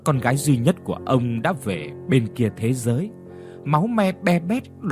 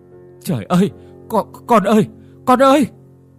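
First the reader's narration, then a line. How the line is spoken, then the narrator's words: Stammering. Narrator (Vietnamese): ông lắp bắp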